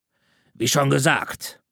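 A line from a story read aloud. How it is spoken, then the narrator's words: Growled. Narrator (German): knurrte Caleb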